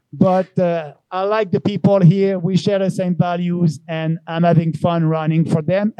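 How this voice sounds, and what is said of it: French accent in English. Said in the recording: “Maybe with a French accent.”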